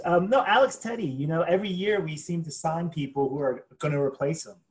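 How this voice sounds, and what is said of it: American accent. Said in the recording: “calling in from the States, so I apologise about the American accent.”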